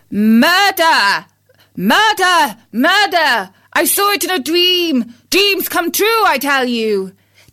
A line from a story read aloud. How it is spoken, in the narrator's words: He called out